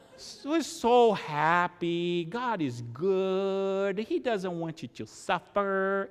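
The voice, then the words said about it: Bad Southern accent over Brazilian accent. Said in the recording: “he has a strong accent. It's Brazilian making a southern accent. So bad.”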